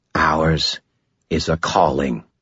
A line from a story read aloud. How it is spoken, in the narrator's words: Kumori said, her voice flat